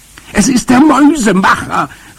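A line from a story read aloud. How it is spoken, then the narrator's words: Call. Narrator (German): rief ich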